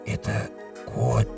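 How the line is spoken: Whisper. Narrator (Russian): Домовой прошептал вместо спящей жены

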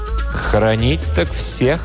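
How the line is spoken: Plain. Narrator (Russian): ответил справедливый череп

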